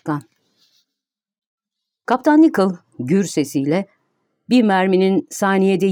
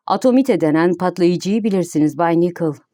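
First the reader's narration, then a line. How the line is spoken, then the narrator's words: Serious voice. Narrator (Turkish): Başkan Barbicane ciddi bir sesle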